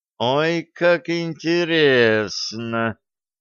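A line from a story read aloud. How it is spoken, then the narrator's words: Drawling. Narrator (Russian): протянула Стесси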